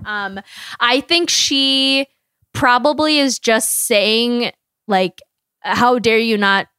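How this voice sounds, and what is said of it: Usual voice. Nothing is said of it.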